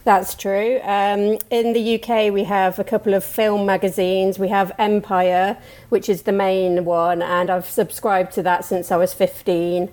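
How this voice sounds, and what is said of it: British accent. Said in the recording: “I'm from the UK originally. You can probably tell by my voice.”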